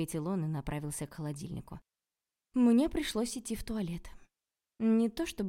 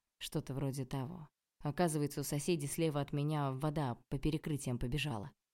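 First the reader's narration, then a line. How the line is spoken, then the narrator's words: Gloomy explanation. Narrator (Russian): мрачно пояснил он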